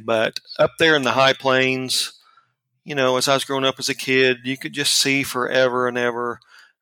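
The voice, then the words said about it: Rural Oklahoma accent. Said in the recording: “I grew up out in far northwestern Oklahoma in Buffalo, Oklahoma. Of course, you can tell from my accent”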